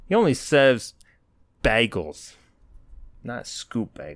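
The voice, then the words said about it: Poor put-on New Jersey accent. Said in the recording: “my New Jersey accent's bad. I haven't practiced it in a while”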